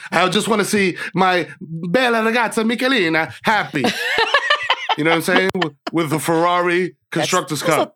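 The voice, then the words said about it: Put-on foreign accent. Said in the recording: “That was a better accent. ... That was good. It wasn't Australian.”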